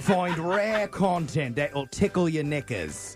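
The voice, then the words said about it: Put-on accent. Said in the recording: “Maybe I should try an accent when I'm promoting”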